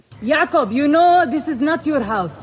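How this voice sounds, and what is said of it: Yelling angrily. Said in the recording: “Why are you yelling at me?”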